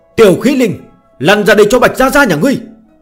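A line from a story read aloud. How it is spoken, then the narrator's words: Excited loud shout. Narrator (Vietnamese): Bạch Tiểu Thuần phấn chấn, cất cao giọng, hét lớn một tiếng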